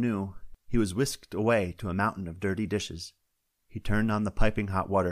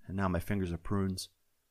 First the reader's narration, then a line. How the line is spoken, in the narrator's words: Joe sighed